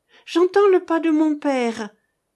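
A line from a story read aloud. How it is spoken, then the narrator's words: Exclaiming. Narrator (French): s'écria Annette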